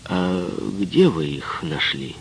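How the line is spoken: Pointedly calm question. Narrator (Russian): Гюндюз подчеркнуто спокойно ее спросил

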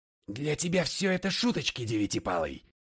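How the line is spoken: Growled. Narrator (Russian): прорычал я

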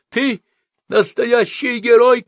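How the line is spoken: Shouting. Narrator (Russian): кричал швед

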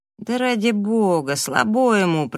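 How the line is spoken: Drawling. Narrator (Russian): протянул Раф

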